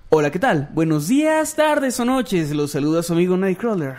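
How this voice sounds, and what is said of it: Announcer-style narrator voice. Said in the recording (Spanish): “un saludo con voz de locutor ... con voz de narrador ... Vamos a hablar con voz de narrador”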